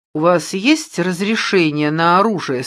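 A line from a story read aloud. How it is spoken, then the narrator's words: Plain. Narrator (Russian): спросил он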